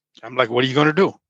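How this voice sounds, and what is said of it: Tamil father accent. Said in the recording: “in a Tamil father accent”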